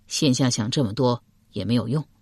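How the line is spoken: Sighing. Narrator (Chinese): 嵇康叹了口气道

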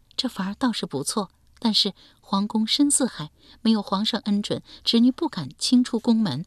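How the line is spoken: Sighing. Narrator (Chinese): 刘青青叹道

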